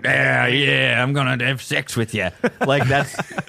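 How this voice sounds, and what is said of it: Put-on Australian accent impression. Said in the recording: “That's Ben Affleck doing an Australian accent. That was my impression of that.”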